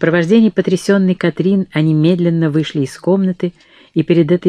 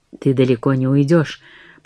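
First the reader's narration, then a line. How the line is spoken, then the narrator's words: Whisper. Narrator (Russian): прошептала Забейда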